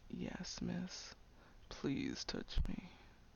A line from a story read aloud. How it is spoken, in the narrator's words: Moaning quietly, he said